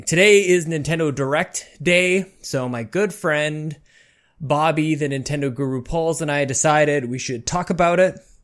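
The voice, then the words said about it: Out of breath, breathless speech. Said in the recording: “I'm a little out of breath. I just ran up from the basement up two floors ... I'm still out of breath.”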